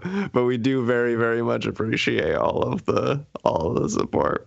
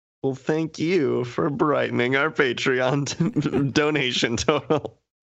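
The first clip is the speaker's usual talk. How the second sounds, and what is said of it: Sarcastic tone. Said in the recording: “I say that sarcastically”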